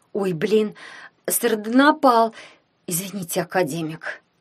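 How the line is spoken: Hoarse. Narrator (Russian): прохрипела она

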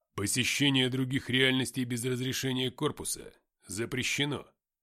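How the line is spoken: Iron-hard voice. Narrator (Russian): железным голосом сказал Артем

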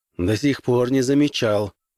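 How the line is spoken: Gloomy reply. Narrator (Russian): мрачно отозвался Граймс

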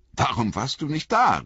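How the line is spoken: Called out. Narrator (German): rief Frodo

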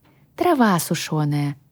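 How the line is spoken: Sighing reply. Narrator (Russian): вздохнув, ответила

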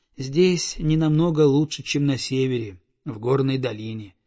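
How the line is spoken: Sighing. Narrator (Russian): вздохнул он

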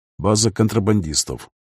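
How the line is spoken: Calm reply. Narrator (Russian): спокойно отозвался Ларай

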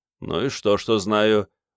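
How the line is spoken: Sullen grumble. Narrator (Russian): угрюмо буркнул Керст

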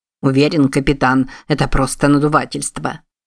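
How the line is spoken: Snorted. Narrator (Russian): фыркнул Куинси

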